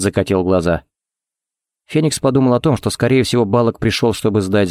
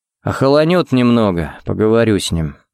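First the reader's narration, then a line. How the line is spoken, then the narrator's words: Sighing. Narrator (Russian): вздохнул он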